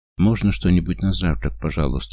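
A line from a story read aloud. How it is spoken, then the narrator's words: Forced calm, anxious. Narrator (Russian): спрашиваю я, пытаясь, чтобы голос звучал спокойно, но на самом деле я ощущаю себя как в клетке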